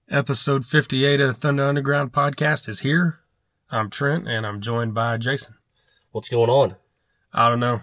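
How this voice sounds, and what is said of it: Congested, under-the-weather voice. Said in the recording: “As you can tell, my voice is a little out of it. ... We're both kind of under the weather, so to speak, with the the head crap.”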